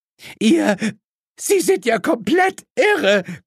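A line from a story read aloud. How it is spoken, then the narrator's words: Shrieking. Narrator (German): kreischte Mrs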